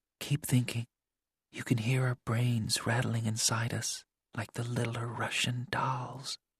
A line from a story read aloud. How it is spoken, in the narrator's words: She whispered